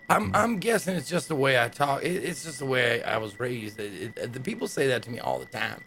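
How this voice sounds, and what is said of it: Put-on accent. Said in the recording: “Why are you talking like that? ... My accent, is it hard to understand?”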